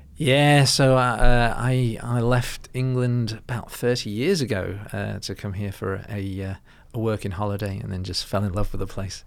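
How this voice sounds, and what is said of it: Slight English accent, partly Australian. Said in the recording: “can I pick up a little accent? ... They reckon I sound Aussie over there.”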